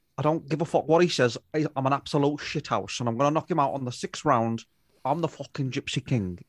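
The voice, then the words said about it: Imitates another person's voice. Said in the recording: “I can do a pretty good impression of Tyson Fury ... It needs work, Stu, but it's almost there ... It's not bad. I've heard worse.”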